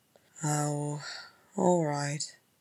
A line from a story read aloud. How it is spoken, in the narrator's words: he muttered